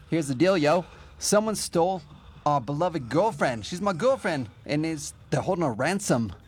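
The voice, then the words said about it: Put-on DJ-style voice. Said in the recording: “That's not my accent I normally do. ... It's your DJ voice.”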